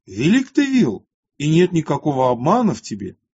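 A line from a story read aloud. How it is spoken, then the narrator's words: Loud royal exclamation. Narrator (Russian): царь воскликнул громким голосом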